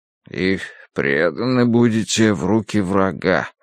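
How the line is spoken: Muttering. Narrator (Russian): пробормотал Дануорти

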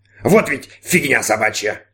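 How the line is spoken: Robot grumbling. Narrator (Russian): пробурчал робот

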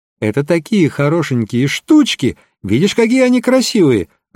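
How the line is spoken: Joyful girl's exclamation. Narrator (Russian): радостно воскликнула девочка

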